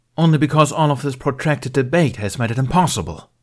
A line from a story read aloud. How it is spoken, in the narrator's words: Bale snapped